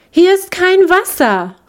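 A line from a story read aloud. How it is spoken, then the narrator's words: Captive lark calling. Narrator (German): rief die gefangene Lerche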